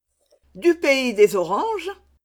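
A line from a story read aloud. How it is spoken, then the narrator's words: Exclaiming. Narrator (French): s'écria mademoiselle de Tonnay-Charente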